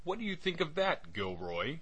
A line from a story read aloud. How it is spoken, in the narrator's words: cried Wilson in a kind of ecstasy